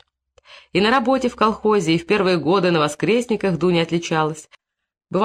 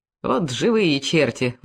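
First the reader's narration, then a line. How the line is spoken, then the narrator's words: Women grumbling. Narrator (Russian): ворчали бабы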